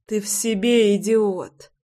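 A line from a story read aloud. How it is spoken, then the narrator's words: Moaning, weak indignation. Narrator (Russian): простонала Руся и вяло возмутилась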